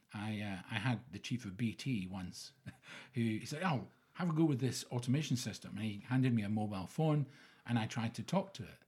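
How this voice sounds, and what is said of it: Scottish accent. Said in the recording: “it hadn't been trained on Scottish accent”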